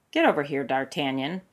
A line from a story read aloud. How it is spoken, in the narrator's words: Porthos muttered